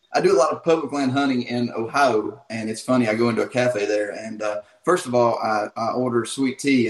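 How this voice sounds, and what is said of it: Thick Southern US accent. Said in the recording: “I dig the accent. I think it's pretty cool. ... His accent's not as thick as yours ... But your accent's thicker. It's a cool accent”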